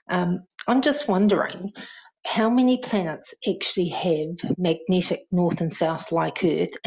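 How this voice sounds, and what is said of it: New Zealand accent. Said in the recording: “Love the accent. Love the accent. ... New Zealand jibes”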